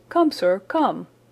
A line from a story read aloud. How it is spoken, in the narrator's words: cried Franklin, rushing upstairs